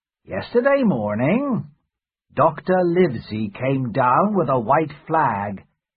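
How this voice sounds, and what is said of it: Smooth character voice. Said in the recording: “Silver answered in a smooth voice.”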